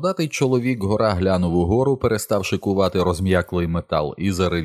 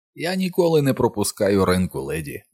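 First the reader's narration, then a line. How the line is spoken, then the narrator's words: Cheerful booming voice. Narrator (Ukrainian): весело прогримів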